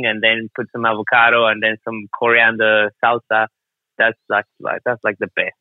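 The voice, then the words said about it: Speaks with a noticeable accent. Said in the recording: “I'm not sure if it's the accent”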